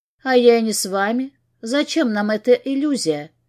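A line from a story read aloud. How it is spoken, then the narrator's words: Calm, holding back tears. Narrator (Russian): Говорю спокойно, хотя ком в горле нарастает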